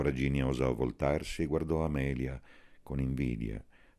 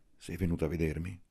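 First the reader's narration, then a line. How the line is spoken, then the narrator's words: Hoarse whisper. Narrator (Italian): Amelia, che distesa sulla schiena dava il fianco al calore, bisbigliò rauca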